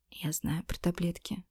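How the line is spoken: Whisper. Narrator (Russian): прошептала я

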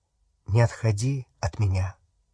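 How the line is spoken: Quiet. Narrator (Russian): сказал он тихо

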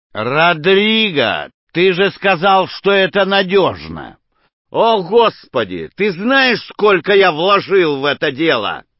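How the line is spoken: Growling into phone. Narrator (Russian): его голос, рычащий в другую трубку

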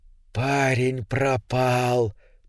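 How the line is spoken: Creature's whisper. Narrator (Russian): прошептало существо

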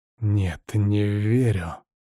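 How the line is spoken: Hiss. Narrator (Russian): прошипел я

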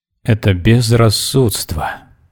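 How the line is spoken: Moaning. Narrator (Russian): простонал господин штабс-ротмистр

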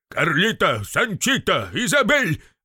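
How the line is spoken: Barked loudly. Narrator (Russian): гаркнул

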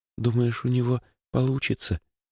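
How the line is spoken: Whisper. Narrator (Russian): прошептала Лёлька

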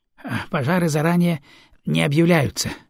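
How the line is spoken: Sighing. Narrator (Russian): вздохнул суперкарго

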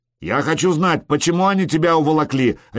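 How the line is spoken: Bark. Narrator (Russian): рявкнул Харальд

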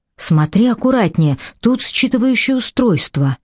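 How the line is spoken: Quiet warning. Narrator (Russian): тихо предупредила его Телли

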